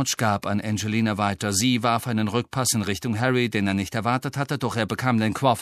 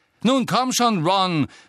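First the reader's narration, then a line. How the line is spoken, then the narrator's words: Harsh call after someone. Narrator (German): rief ihm Angelina in barschem Ton hinterher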